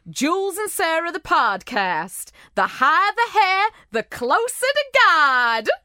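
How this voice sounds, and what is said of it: Put-on Texan accent. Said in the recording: “you're doing a Texan accent ... I'm sorry for my Texas accent.”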